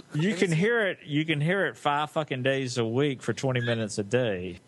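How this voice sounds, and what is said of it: Southern US accent. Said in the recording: “Where's your accent from? ... South Cackalacky ... Do I have an accent? ... I think it's kind of sexy. ... It's very sexy.”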